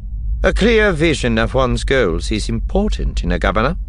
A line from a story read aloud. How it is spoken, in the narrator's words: Tarkin said dryly